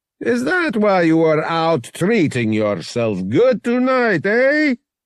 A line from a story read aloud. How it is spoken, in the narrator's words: He laughed